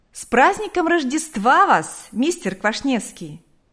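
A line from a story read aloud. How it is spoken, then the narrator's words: Woman calling out. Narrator (Russian): крикнула она ему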